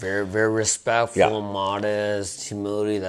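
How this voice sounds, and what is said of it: Usual voice. Nothing is said of it.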